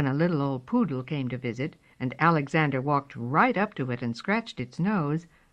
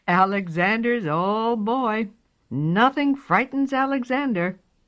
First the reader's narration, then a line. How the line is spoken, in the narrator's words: laughed and said